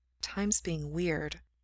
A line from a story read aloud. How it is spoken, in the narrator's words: Gerard mutters